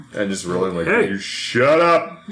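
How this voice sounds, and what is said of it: Stern authoritative dad voice. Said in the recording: “my sensei voice or my dad voice.”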